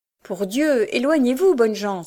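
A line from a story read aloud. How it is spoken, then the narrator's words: Exclaimed. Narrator (French): s'écria Peter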